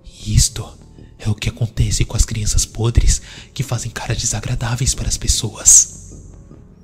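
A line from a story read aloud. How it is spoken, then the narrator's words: Whispering in an ear. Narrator (Portuguese): Isaac sussurrou no ouvido do menino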